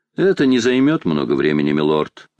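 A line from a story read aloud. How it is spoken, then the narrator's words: Plain. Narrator (Russian): ответил тот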